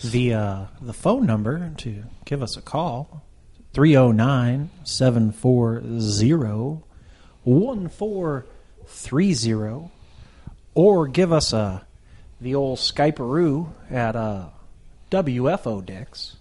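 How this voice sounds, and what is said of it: Smooth FM radio DJ voice. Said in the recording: “a pretty good FM DJ voice”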